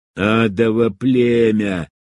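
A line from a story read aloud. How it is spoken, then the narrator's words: Hiss. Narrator (Russian): прошипел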